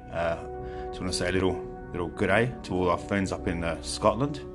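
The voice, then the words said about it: Attempted Scottish accent sounding Australian. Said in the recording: “I was going to do a Scottish accent there. ... come out ... Australian.”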